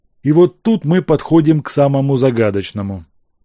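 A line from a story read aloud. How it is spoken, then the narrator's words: Sigh. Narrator (Russian): вздохнул Зубатов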